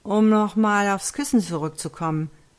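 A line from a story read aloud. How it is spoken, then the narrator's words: Slightly slurred. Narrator (German): lallte leicht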